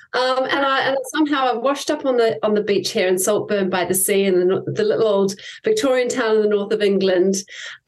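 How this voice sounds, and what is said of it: New Zealand accent. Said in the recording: “I'm a New Zealander. I think people can definitely pick up a Kiwi twang when I talk.”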